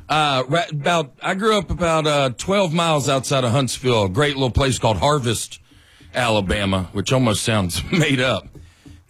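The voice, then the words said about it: Southern US accent. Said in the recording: “My accent catches some strays in New York City ... that's from my accent? ... I'm blending in a little better.”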